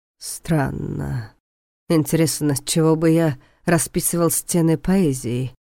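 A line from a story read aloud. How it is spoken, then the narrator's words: Thoughtful drawl. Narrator (Russian): задумчиво протянул Войтых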